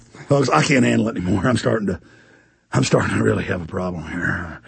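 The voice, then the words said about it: Deep, strained blown-out voice. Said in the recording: “I just blew my voice out earlier screaming. People ask why my voice is so deep.”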